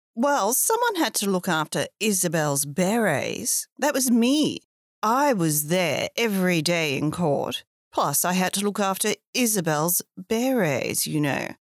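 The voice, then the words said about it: Posh middle-aged woman character voice. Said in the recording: “a very temperamental woman, middle-aged woman with a posh accent.”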